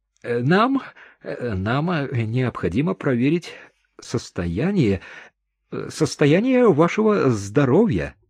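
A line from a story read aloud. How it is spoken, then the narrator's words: Mumbled. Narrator (Russian): пробормотал медик в темных очках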